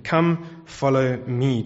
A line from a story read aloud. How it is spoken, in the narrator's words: Jesus said